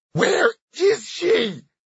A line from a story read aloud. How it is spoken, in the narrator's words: she screamed